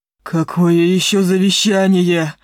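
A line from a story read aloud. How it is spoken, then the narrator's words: Howling wolf. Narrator (Russian): взвыл волк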